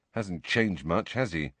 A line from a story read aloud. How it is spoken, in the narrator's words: Harry muttered to Ginny